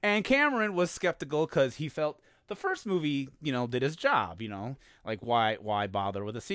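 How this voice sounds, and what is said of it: Usual voice. Nothing is said of it.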